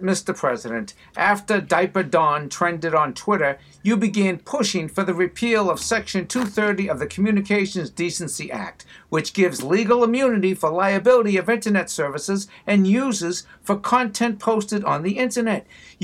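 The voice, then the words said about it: Boston accent. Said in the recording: “Jimmy Tingle with the Boston accent,”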